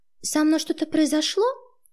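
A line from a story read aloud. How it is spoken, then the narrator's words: Thin, feigned-naive voice. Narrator (Russian): тоненьким голоском спросила, прикидываться дурочкой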